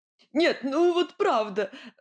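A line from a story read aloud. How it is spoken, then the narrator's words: Exclaiming through laughter. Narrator (Russian): сквозь смех восклицал он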